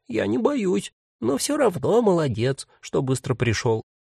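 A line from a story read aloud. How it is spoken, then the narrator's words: Thin, squeaky voice. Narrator (Russian): ответил себе тоненьким голоском, как бы от имени кролика Лены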